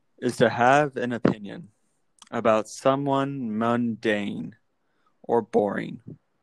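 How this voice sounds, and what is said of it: Deliberately boring flat voice. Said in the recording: “my most boring voice”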